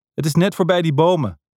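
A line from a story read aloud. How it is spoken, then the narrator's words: Shouting. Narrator (Dutch): schreeuwde Deano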